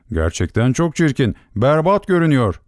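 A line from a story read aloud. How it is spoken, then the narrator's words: Shouting together. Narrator (Turkish): diye bağırıştılar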